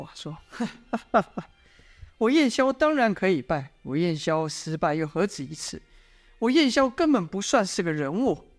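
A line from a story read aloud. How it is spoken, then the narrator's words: Proud, sudden laugh. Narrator (Chinese): 燕萧突然昂然的笑道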